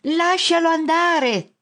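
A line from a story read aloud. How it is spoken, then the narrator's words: Shout. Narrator (Italian): grida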